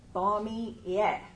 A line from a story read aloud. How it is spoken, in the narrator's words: the woman says slowly and carefully